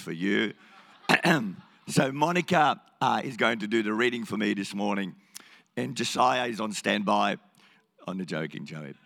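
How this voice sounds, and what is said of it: Croaky, hoarse voice. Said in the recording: “Once a year, the Lord blesses me with a croaky voice... I just get a croaky voice and I lose my voice”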